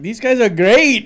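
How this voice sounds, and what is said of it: Put-on vague Russian accent. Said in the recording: “which is the worst Russian ever ... that's basically the only accent I have for every foreign guy ... distinctly like somewhere in Europe”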